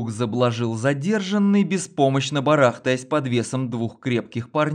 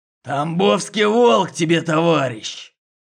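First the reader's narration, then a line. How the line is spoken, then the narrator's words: Growled. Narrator (Russian): прорычал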